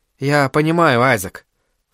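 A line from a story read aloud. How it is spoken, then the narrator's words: Sigh. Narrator (Russian): вздохнул Адерхан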